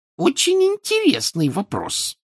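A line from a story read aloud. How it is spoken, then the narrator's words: Shrill reply. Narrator (Russian): визгливо ответила она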